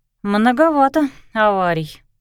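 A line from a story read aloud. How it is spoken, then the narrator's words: Woman grumbling. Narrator (Russian): буркнула она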